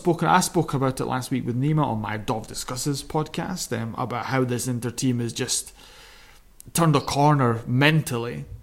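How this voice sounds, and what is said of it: Scottish accent with a drawl. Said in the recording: “with a lovely Scottish drawl accent.”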